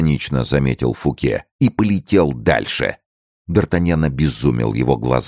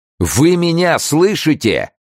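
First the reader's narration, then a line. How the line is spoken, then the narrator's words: Yell. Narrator (Russian): завопил Д'Артаньян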